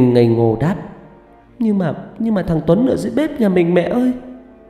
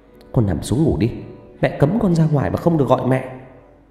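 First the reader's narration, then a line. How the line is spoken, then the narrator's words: Stern mother. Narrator (Vietnamese): Mẹ nghiêm giọng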